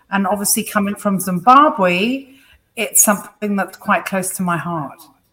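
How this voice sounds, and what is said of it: Zimbabwean accent, close to British. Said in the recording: “I couldn't place the accent ... it wasn't quite a UK accent ... So Zimbabwe, that makes sense.”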